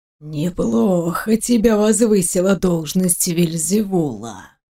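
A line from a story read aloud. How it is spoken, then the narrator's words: Hissing man. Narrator (Russian): прошипел мужчина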